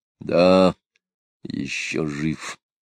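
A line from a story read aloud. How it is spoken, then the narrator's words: Gloomy mutter. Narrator (Russian): мрачно пробормотал Григорий Григорьевич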